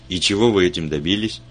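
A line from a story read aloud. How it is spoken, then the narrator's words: Skeptical snort. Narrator (Russian): Вульф хмыкнул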